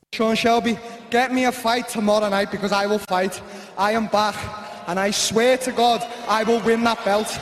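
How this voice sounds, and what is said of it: Scouse accent. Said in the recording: “this is what he sounds like in his normal Scouse accent ... that's him speaking in his normal accent”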